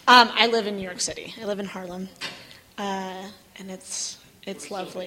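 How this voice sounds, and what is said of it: Scratchy, hoarse voice. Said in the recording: “apologize for my voice. I'm losing it. ... I think I'm allergic to Utah. Every time I come back, I get sick. ... my scratchy voice.”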